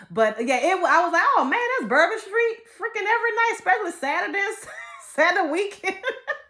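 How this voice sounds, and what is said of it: Slight New Orleans accent. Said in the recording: “I have a slight accent, apparently, from New Orleans, Louisiana. We have an accent”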